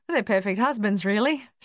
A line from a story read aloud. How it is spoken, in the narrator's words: she said, laughing for the first time in weeks